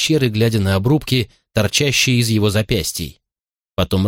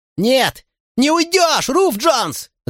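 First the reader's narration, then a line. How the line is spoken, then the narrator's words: Shouted. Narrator (Russian): закричал я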